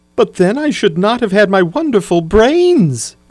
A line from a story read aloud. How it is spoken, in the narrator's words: cried the Scarecrow